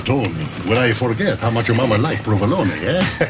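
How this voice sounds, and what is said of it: Exaggerated bad Italian accent. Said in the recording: “doing the worst Italian accent ever. He sounds like Mario from Super Mario 64.”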